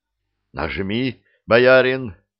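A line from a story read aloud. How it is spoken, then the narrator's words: Hoarse. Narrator (Russian): прохрипел я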